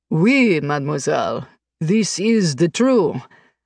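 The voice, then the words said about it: Terrible put-on French accent. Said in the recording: “I can do a superb French accent ... truly terrible French accent”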